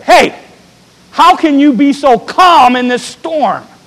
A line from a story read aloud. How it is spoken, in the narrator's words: she got a little bit upset, and she got right up in her husband's face and sort of yelled at him a little bit